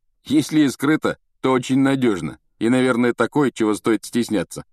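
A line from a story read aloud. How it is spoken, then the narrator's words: Wry snort. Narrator (Russian): хмыкнул Рон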